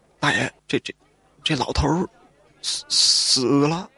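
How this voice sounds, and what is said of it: Quiet, stammering voice. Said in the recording (Chinese): “小声的说道”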